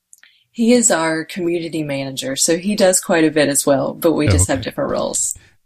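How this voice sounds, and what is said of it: Light Southern American drawl. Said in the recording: “the cute little drawl there ... definitely a Southern girl”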